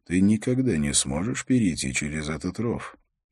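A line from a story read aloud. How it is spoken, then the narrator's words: Quiet. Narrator (Russian): Холт негромко произнес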